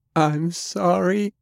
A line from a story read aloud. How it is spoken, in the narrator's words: cried, her voice trembling